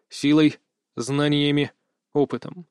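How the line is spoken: Grunting smirk. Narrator (Russian): хмыкнул

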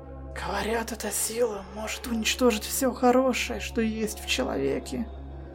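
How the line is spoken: Breathed out. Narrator (Russian): выдохнула она

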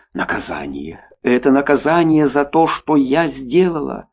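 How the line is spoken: Whispering. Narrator (Russian): шептала она

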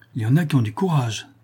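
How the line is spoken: Woman exclaiming. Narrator (French): s'écria la femme

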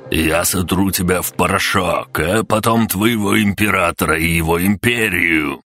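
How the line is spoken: Growled threat. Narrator (Russian): прорычал король Едозубов

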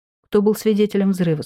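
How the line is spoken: Plain question. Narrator (Russian): спросил он

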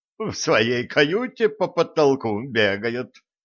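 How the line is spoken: Giggled. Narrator (Russian): хихикнула Нола

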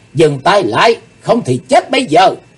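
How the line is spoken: Loud shout. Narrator (Vietnamese): Chí Tôn hét lớn

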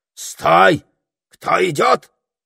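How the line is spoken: Barked loudly. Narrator (Russian): гаркнул он

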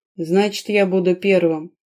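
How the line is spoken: Snort. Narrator (Russian): хмыкнул Дэрион

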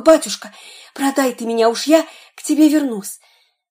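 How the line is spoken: Small boy whispering in ear. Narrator (Russian): мальчик с пальчик шепнул ему на ухо

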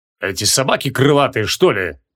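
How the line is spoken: Dismissive snort. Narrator (Russian): пренебрежительно фыркнул капитан

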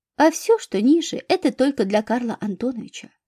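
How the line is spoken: Quick, clarifying. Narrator (Russian): быстро продолжила Амалия Петровна и уточнила

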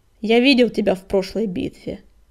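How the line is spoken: Quiet growl. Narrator (Russian): тихо прорычал коготь

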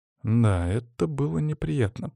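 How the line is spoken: Thoughtful drawl. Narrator (Russian): протянул я задумчиво

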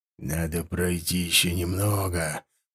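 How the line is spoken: Mutter. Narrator (Russian): пробормотал Ширам

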